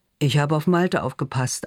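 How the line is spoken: Answer with forced laugh. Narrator (German): antwortet er und versucht ein Lachen

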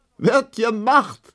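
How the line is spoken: Laughing. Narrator (German): lachte die lange Emma

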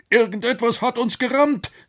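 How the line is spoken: Shouting. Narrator (German): rief der Professor

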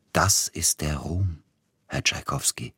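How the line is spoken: Quiet. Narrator (German): sagte er leise

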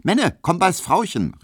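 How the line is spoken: Call. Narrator (German): rief

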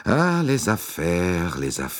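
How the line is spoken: Sighing. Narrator (German): Monsieur Bouc seufzte

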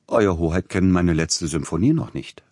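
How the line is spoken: Plain. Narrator (German): sagte der Komponist

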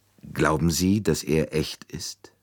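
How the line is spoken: Plain. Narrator (German): fragte Dr

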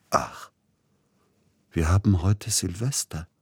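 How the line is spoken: Sudden very quiet. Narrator (German): sagte er plötzlich ganz leise

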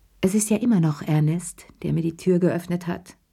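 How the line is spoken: Plain. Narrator (German): sagte Cheri schließlich

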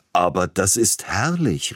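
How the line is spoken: Exclaiming. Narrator (German): rief Peter Iljitsch aus

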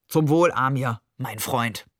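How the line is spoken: Toast. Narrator (German): Er prostete jemandem zu

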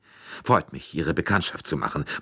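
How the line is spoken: Murmured. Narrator (German): murmelte

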